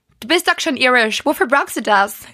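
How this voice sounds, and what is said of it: Imitates mother's Irish-accented German. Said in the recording (German): “Kannst du das bitte nochmal in ihrem Akzent machen? ... Ich liebe diese Akzent.”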